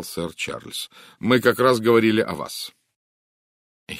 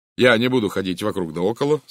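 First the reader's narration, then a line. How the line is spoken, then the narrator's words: Plain. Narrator (Russian): сказал он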